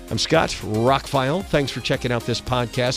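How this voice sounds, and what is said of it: Slightly raspy voice. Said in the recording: “I'm a little raspy.”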